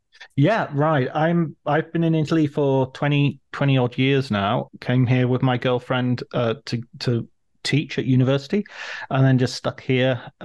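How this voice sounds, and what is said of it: English accent. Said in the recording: “you've got an English accent”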